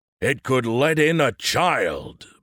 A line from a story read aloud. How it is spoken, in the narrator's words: boomed a voice from the back of the room